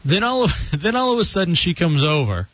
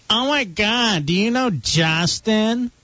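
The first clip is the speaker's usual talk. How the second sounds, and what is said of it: Put-on Michigan accent. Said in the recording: “Why does she have a Michigan accent all of a sudden?”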